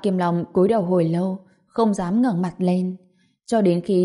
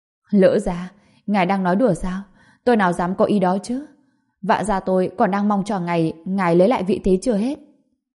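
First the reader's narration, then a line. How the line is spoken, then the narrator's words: Frightened hurried explanation. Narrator (Vietnamese): Vạn Kiềm Long bị dọa cho sợ hãi, vội vàng giải thích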